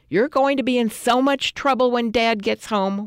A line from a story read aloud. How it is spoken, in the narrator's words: we shouted